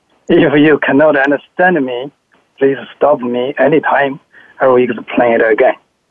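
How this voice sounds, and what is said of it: English with strong Chinese accent. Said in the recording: “English with a strong Chinese accent and a Texan accent”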